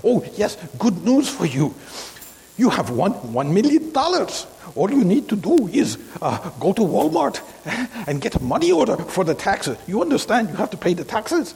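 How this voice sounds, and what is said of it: Put-on Nigerian accent. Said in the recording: “I get a call in a Nigerian accent.”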